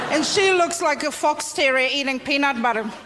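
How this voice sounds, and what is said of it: Slightly Australian-tinged accent. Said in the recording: “I don't know if you recognize the accent there. There was a little bit of ... Australian”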